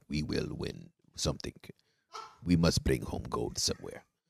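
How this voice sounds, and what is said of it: Put-on Russian accent. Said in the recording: “my Russian accent”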